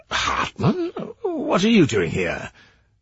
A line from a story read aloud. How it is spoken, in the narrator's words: Sauer said in a baffled voice